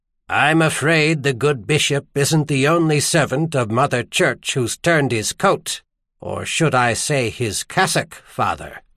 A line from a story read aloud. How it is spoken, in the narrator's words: said flatly